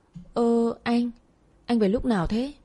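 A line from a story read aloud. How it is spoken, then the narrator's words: Long struggling stammer. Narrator (Vietnamese): Lắp bắp mãi tôi mới phát âm ra được một câu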